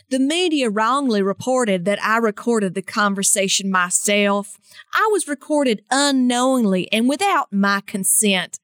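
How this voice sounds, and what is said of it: Put-on accent reading a quote. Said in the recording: “I'm going to do an accent.”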